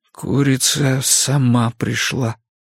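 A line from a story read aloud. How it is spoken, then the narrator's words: Muttering. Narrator (Russian): пробормотал он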